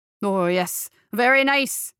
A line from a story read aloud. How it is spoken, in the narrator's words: shouted back